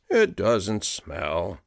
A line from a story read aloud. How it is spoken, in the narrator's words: grumbled